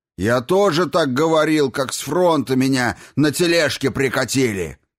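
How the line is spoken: Bellowing. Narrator (Russian): заорал он

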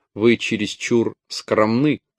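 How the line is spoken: Plain. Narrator (Russian): сказали ему

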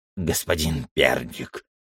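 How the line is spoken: Old man, nasty voice. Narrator (Russian): заговорил один из них, старик с мерзким голосом

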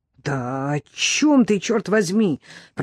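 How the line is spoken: Hiss. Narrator (Russian): прошипела Дебби

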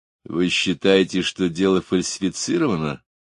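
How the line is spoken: Plain. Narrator (Russian): спросил Гуров

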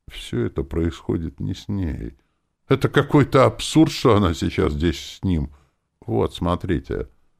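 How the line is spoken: Interrupting. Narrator (Russian): прервала

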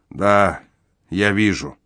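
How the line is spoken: Gloomy. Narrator (Russian): мрачно подтвердил он

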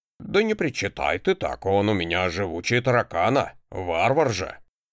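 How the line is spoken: Snorting. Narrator (Russian): хмыкнул Кром

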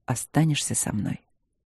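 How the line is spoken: Hoarse, expectant question. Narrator (Russian): спросил хрипло и как-то выжидающе

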